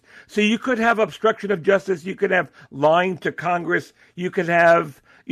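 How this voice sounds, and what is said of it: Bronx accent. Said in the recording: “the umbrella with an R, that's my Bronx accent”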